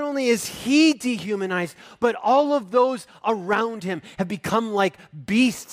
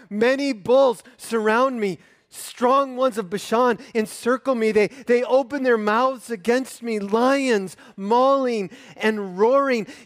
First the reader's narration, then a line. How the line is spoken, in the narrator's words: he cries out